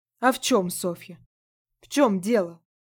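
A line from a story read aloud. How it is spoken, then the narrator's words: Booming, echoing like bells. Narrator (Russian): Голос Яги Варвары прогремел в моей голове и отозвался гулким эхом, разлетевшись по всему телу, как колокольный звон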